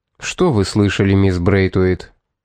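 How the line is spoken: Soft gentle tone. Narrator (Russian): проговорил Томас мягким тоном

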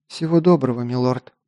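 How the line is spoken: Quiet reply. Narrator (Russian): тихо ответила Лисана

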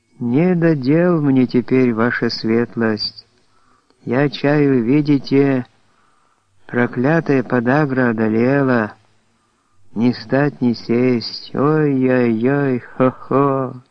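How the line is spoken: Drawling muffled old voice. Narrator (Russian): Артемий Петрович тянул глухим старческим голосом

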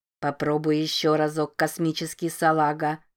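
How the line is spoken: Grating mechanical machine voice. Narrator (Russian): предлагал ближайший к Рози автомат скрежещущим механическим голосом

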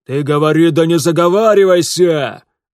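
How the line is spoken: Yelling. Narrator (Russian): заорал Гнат Гнатыч

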